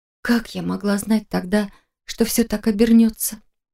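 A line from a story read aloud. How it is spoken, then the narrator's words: Mumbling, throat tightening. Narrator (Russian): Пробормотала я снова, чувствуя, как перехватывает горло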